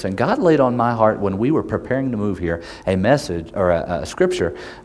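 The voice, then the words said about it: Oklahoma accent. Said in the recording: “Me and my wife are from Oklahoma, if my accent has not given itself away. That's my handicap. And I have not lost it yet.”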